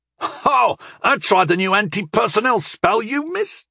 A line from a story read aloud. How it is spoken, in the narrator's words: Wenik said excitedly as he could with one arm